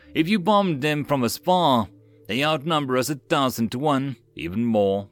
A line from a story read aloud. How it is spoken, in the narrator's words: Mills sighed